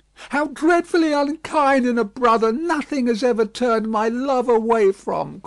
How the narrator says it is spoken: cried Miss Pross

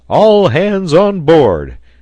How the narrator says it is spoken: shouted Pencroft

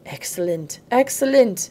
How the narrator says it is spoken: he exclaimed, with gratification

